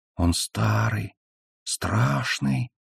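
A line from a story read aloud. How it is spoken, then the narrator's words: Small voice whispering. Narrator (Russian): прошептал маленький голос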